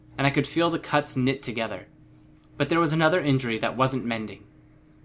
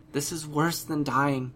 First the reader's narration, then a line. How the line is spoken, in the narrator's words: she said, her voice quiet